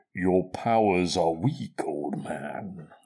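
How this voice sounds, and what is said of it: Imitates Darth Vader's voice. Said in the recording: “Great voice. Do you want me to do an impression of him? ... I usually do it in an empty pint glass. ... That's good.”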